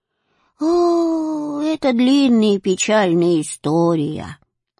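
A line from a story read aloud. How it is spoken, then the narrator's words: Old woman's sigh. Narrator (Russian): вздохнула старушка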